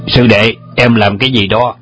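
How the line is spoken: Angry loud shout. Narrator (Vietnamese): Trùng Dương trông thấy nổi giận quát lớn

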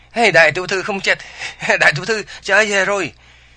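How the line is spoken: Frantic shouting. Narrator (Vietnamese): Vừa la hét điên cuồng

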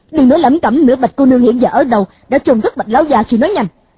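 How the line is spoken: Impatient shout. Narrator (Vietnamese): A Khắc Đan sốt ruột, hét một tiếng

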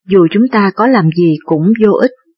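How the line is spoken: Sighing, resigned. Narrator (Vietnamese): Bá Dương Phụ cũng thở dài, rồi lắc đầu nói

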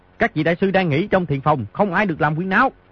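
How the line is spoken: Commanding shout. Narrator (Vietnamese): Di Tiểu Bảo tỏ rõ quay phong một người giữ ải, muôn người khôn địch, quát

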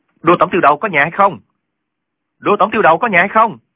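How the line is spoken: Loud calling. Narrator (Vietnamese): cao giọng gọi

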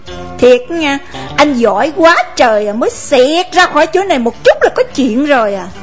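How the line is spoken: Shrill, sharp interruption. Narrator (Vietnamese): Con Ba lên giọng chanh chua để chặn ngang

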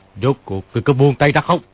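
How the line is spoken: Shouted. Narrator (Vietnamese): Kim Luân Pháp Vương quát lên

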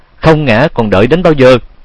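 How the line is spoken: Shout. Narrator (Vietnamese): Tiếng hét

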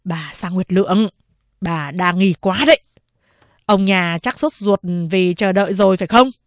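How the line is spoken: Smiling. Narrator (Vietnamese): Chính ủy tường mỉm cười nói

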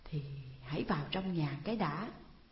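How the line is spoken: Hesitant, stalling. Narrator (Vietnamese): Trang ấp úng trả lời để kéo dài thời giờ

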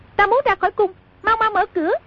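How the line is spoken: Princess shouting. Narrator (Vietnamese): Công chúa trong kiệu nhảy bật ra quát

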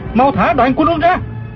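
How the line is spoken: Shouting mid-fight. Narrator (Vietnamese): Du Thản Chi vừa đấu chưởng vừa la lên

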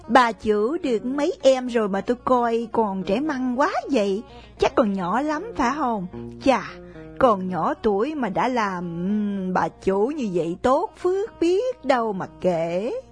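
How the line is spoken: Smiling question. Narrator (Vietnamese): Con ba mỉm cười hỏi thêm

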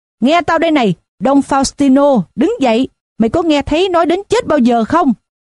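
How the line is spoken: Shout. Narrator (Vietnamese): một người khác hét lên

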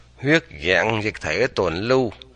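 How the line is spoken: Soft reading aloud. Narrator (Vietnamese): Dương Thu Trì khẽ đọc

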